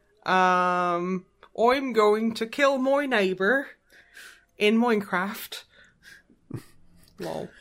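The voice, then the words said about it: Put-on West Country English accent. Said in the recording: “West Country accent ... my West Country accent is perfect? It sounds like it's from the West Country ... that sounds like the accent I hear all day, every day”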